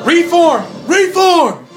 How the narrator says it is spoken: Ren yells to the archers

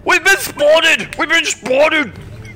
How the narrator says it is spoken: shout

